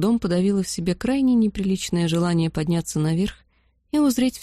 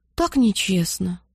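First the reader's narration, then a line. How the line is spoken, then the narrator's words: Sighing. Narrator (Russian): вздохнула Бетси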